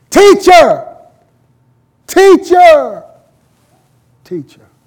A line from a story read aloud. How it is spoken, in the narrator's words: screamed out in Aramaic, her native tongue